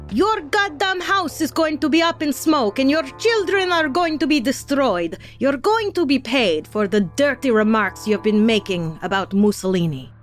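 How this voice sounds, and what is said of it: Put-on Italian accent. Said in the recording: “That was my Italian accent”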